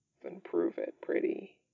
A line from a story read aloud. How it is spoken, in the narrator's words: he murmurs